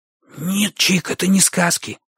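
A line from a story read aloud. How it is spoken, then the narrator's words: Heated whisper. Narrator (Russian): шепотом горячился Бочо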